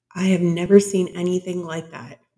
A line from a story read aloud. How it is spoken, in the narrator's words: Vic said